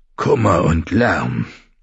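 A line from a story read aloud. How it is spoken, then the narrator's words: Murmured. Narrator (German): murmelte Mormont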